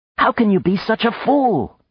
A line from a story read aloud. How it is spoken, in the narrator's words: she cried